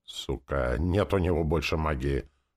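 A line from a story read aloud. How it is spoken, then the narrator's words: Demon grumbling. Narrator (Russian): проворчал демон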